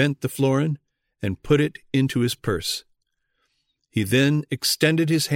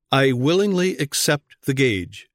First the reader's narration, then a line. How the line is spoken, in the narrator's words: said Karlstadt